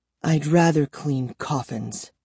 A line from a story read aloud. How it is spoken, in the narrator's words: she murmured bitterly